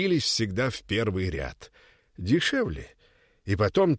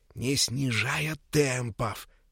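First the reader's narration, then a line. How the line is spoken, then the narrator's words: Whispering into ear. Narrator (Russian): Петька шепотом пересказывал деду в самое ухо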